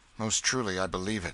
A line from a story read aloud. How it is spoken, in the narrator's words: said Miles bitterly